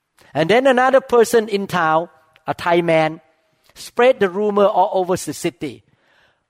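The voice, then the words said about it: Accented non-native English. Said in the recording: “You speak English with accent.”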